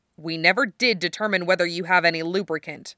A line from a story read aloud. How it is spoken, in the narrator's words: Wufei growled